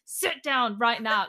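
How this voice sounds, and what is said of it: Stern, commanding mum voice. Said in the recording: “I go full mum mode and I'm like ... Like, literally in that exact voice.”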